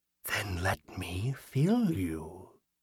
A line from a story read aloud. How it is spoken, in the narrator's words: the figure whispered